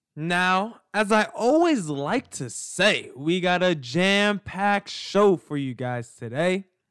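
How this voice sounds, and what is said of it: Scratchy, congested voice with a cold. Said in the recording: “I have a little bit of a cold, a little bit of a scratchy throat. So you might hear me clear my throat a few times, maybe cough”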